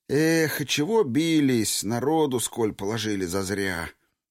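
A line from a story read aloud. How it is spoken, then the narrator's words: Sudden sigh. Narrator (Russian): Вдруг вздохнул курносый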